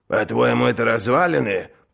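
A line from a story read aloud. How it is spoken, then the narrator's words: Grumbling. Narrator (Russian): проворчал Крэб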